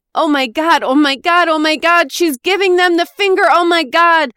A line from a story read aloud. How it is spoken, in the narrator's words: floated out of my husband's mouth